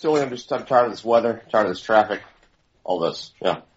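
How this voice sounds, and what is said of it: Dejected, mopey voice. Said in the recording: “witness a man at his lowest ... What is that voice? ... You okay?”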